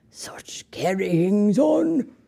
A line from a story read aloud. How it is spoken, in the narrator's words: he would mutter in disgust